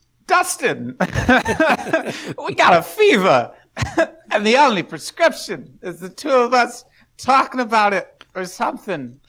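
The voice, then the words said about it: Imitates another person's voice. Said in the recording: “that impersonation there, a little Christopher Walken”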